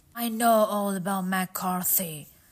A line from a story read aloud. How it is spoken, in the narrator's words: said Holmes